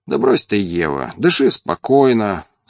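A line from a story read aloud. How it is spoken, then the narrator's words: Cheerful. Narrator (Russian): бодро сказал я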